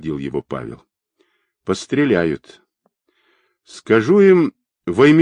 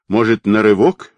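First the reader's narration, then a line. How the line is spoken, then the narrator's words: Exclaiming. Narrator (Russian): воскликнул Квадрат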